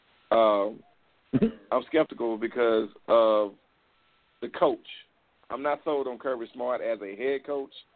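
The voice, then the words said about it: Slurred speech. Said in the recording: “I'm slurring”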